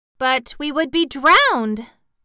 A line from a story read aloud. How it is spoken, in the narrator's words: exclaimed the girl